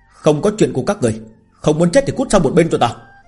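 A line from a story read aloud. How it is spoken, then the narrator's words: Angry shout. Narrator (Vietnamese): phẫn nộ quát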